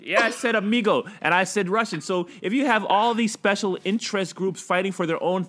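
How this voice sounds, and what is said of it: Usual voice. Nothing is said of it.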